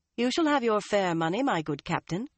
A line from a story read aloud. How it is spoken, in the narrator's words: Elaine told him coolly